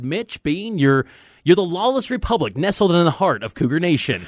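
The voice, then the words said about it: Imitates another person's voice. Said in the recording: “That's a great, great impression,”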